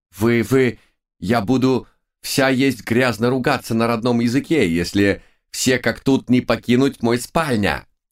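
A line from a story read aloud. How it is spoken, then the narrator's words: Hysterical shriek. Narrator (Russian): Истерически завизжала королева Анна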